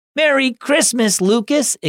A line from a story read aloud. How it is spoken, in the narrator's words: exclaimed Jane